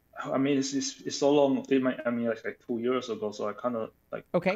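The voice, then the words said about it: Non-native English accent. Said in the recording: “I'm detecting an accent. ... I speak Chinese.”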